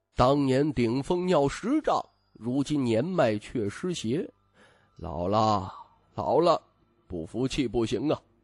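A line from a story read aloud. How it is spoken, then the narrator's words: Sighing old master. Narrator (Chinese): 老掌教叹息道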